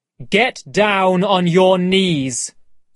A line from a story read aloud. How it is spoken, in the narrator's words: said loudly